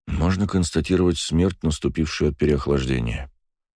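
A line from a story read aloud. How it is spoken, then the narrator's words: Quiet, senior healer. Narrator (Russian): тихо произнес старший целитель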